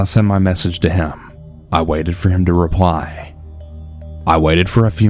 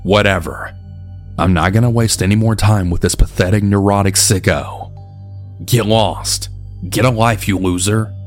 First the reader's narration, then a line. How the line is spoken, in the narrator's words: I bitterly thought to myself